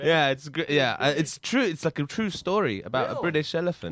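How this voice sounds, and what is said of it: British accent. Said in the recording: “You with your British accent. ... I just love his accent. ... It makes it so classy.”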